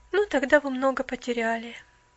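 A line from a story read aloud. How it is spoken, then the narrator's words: Sad young woman. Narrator (Russian): печально проговорила девушка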